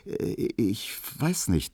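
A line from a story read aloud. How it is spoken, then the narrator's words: Stammering. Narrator (German): stotterte er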